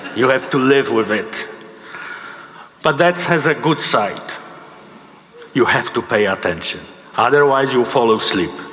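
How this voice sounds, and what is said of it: Polish accent in English. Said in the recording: “English is my second language... I came from Poland in 1992... you will not lose this accent.”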